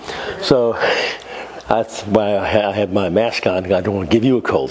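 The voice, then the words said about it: Voice of someone with a cold. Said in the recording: “I have a cold.”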